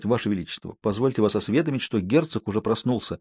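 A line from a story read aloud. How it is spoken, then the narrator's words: Respectful tone. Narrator (Russian): по возможности почтительным тоном сказать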